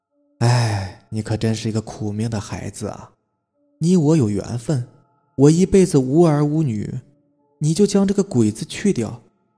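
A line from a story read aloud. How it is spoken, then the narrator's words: Old woman, smiling. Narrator (Chinese): 鬼婆婆微笑着说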